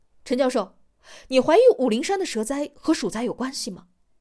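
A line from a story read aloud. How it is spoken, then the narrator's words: Loud question. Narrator (Chinese): 王栋 大声的问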